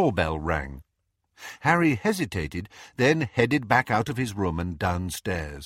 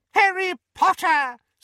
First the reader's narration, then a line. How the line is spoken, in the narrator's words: squeaked an excited voice